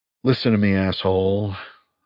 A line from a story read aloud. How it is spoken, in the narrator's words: I said quietly